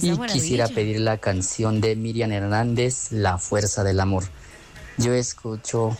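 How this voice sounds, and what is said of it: Slight accent, possibly Mexican. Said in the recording (Spanish): “¿Me late México o qué? ... Tiene acento. ... Cierto, un poquito.”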